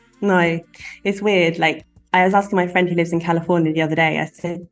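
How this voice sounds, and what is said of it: English London accent, not cockney. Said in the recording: “Does the word posh mean anything to you? ... I know that you're not cockney. ... do I have an accent to you? And she was like, yeah. ... you and I, for example, do not sound alike.”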